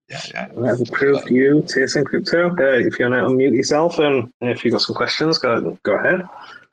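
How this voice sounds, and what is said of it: Yorkshire English accent. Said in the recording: “you got a similar accent... I'm from the UK... are you Yorkshire-based, or?... near Leeds”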